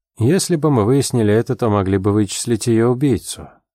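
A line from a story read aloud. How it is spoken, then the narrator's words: Dry. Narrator (Russian): сухо сказал Дик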